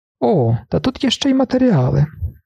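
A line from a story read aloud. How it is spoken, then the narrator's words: Doctor exclaims. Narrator (Ukrainian): вигукнув доктор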